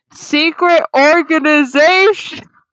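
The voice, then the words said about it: Very loud shouted line. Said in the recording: “in a very loud voice,”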